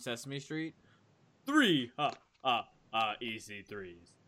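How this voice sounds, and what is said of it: Sesame Street Count character voice. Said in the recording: “I love doing that voice ... What is my count voice?”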